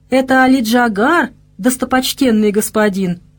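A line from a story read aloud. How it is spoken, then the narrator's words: Sudden laughter. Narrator (Russian): неожиданно рассмеялся Остромысл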